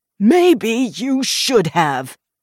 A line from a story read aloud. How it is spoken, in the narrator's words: Watkins shouted, and began to cough